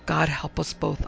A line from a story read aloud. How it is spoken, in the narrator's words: I heard myself muttering